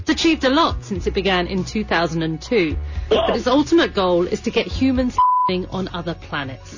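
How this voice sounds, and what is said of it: BBC reporter's hard-to-follow accent. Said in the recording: “This is a BBC reporter ... that's a little tough because of the accent.”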